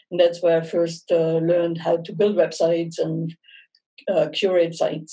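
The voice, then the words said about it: German accent. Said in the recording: “that's where my accent comes from. It comes from Germany. I'm born and raised in Munich.”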